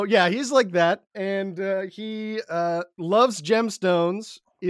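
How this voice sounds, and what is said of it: Usual voice. Nothing is said of it.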